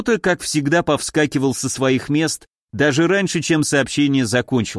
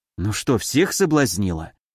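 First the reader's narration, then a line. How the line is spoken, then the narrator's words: Impulsive whisper. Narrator (Russian): Не удержавшись, шепнула я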